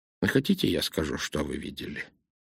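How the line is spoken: Plain. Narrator (Russian): сказал Пуаро

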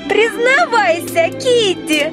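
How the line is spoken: Shout. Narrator (Russian): закричала Алиса

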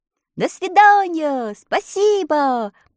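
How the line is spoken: Shouted by travelers. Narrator (Russian): прокричали путники

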